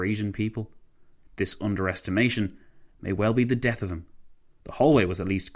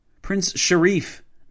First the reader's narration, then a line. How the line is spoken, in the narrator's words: Nabuwaki yelled